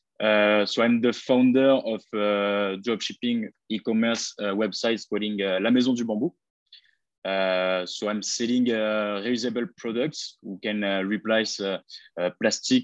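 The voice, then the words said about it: French accent in English. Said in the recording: “I apologize for my English... I come from France. You can heard it by my accent.”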